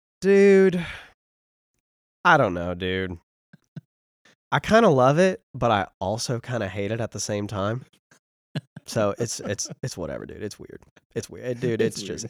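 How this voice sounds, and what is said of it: Imitated Tennessee accent. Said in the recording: “Could you do a Braden Couch impersonation ... Braden just has that great Tennessee accent”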